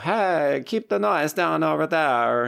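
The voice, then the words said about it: Borat-style put-on accent. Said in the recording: “That was a very Borat accent.”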